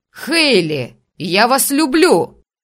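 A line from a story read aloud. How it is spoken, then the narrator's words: Shout from crowd. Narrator (Russian): Крикнул кто-то из толпы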